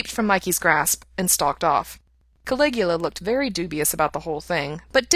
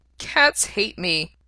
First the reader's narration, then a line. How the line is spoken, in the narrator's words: Pete said miserably